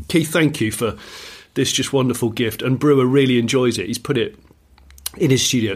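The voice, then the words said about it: Slightly hoarse voice. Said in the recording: “I've laughed a little bit too much. I'm feeling a little hoarse now.”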